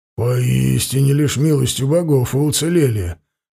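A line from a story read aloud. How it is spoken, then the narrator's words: Breathed out. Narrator (Russian): выдохнул Варлыга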